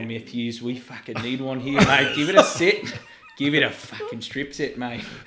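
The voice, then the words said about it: Mediocre put-on Australian accent. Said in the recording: “I was doing accents too ... I went full Aussie for a little while. I was not that I even do a good Aussie accent.”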